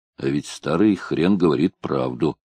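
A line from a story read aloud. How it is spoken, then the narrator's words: Muttered under breath. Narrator (Russian): буркнул себе под нос Гоф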